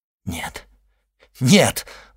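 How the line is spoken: Exclaiming. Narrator (Russian): воскликнул Бертуччо

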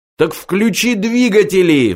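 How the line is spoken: Roar. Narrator (Russian): взревел Форд

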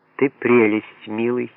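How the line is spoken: Tender. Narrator (Russian): нежно сказала она

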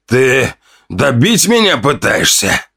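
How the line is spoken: Pained hiss. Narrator (Russian): зашипел он после сдавленного вздоха боли

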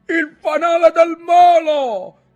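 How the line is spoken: Shouting. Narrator (Italian): gridò Ntoni

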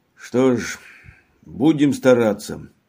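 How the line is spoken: Sighed. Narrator (Russian): вздохнул он

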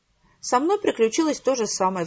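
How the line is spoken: Sighing, grandmother. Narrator (Russian): вздохнула бабушка

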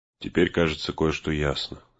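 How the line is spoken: Low voice. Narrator (Russian): сказал он вполголоса

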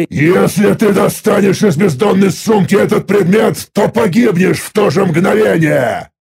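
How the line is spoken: Angry roar. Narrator (Russian): зло взревел я

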